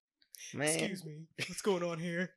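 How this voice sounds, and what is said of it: Poor impersonation of a man's voice. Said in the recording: “my man impersonation ... That's terrible.”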